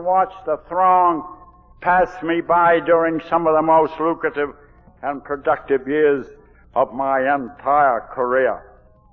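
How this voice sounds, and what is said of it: Down East Maine Yankee accent. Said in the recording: “I'm a down east Yankee drunk, as you can tell. This accent isn't a Texas accent”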